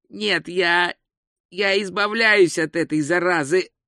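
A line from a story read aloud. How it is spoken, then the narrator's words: Hoarse declaration. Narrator (Russian): хрипло заявил он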